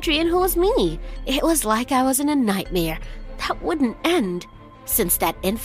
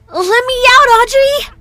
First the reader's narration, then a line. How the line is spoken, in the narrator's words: I screamed at the top of my lungs